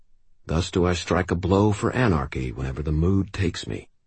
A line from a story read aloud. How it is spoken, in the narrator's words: I muttered